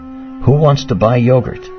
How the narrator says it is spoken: Laughing in sweet peals, he said

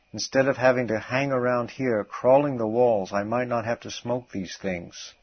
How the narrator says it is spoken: he exclaimed

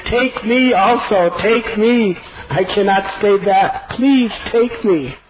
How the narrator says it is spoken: Lakshman fell at the lotus feet of Ram, holding onto his feet, and pleaded

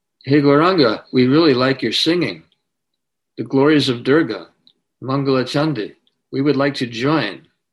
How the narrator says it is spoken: Jagai and Madai, they called out to him

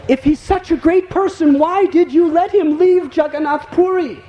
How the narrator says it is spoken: The king exclaimed

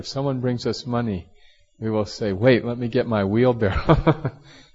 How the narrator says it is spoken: laughed about it, and he said

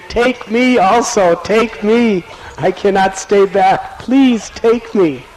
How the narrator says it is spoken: Lakshman pleaded

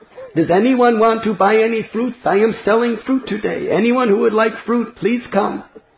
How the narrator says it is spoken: she cried out very loudly

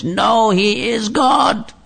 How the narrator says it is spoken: this devotee, this person who'd come to look for Prabhupada, he was shouting at the top of his voice

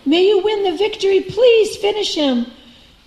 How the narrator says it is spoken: the onlookers cried

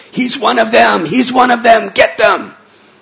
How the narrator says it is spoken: they would scream out to the public

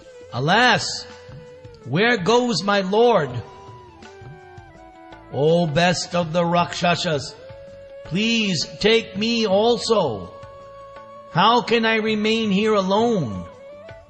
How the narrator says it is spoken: mournful wail

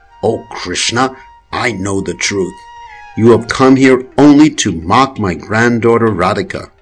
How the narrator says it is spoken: Mukura angrily says

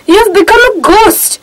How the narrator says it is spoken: the friend repeated in a horrified voice

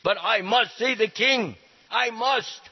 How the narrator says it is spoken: another man in the hallway shouted

